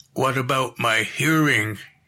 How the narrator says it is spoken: he croaked

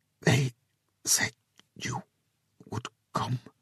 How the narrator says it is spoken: she whispered, the words awkward in her mouth

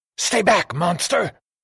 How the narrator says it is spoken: She hissed like a snake

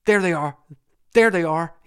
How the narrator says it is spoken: he stammered out

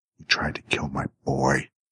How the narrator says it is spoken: hissed

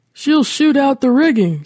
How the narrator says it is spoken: shouted

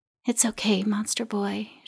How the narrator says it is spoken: she whispered

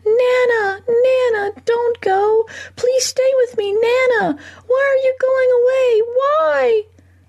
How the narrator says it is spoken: The little boy flung himself against his mother's grip, screaming

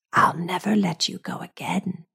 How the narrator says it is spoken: she whispers

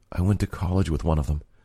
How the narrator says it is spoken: Lydia said quietly

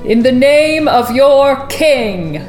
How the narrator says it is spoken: boomed

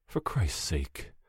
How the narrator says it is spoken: I'm muttering

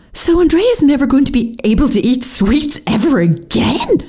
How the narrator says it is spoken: I exclaimed in horror

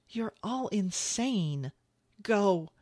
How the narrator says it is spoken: he pleaded with her, shaking his head in frustration

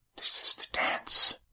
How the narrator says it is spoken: she whispered

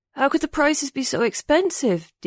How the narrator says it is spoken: Ding mumbled as he clutched his cheek

